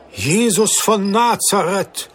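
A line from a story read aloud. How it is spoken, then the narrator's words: Astonished merchant's exclamation. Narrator (German): rief der Kaufmann erstaunt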